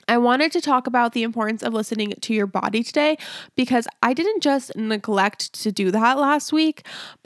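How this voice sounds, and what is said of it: Sick, congested stuffy-nosed voice. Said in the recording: “I don't know if you can still hear in my voice that I'm sick. I still have a somewhat itchy throat and a stuffy nose, so I might not sound as clean and crisp as usual”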